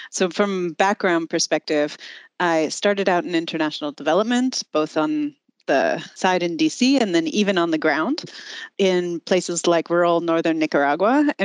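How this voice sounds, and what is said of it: American English accent. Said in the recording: “I actually am American, you can tell by my accent”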